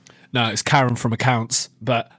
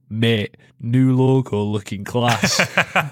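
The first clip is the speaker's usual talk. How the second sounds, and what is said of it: Imitates another person's accent. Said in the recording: “I'll read it in their accent.”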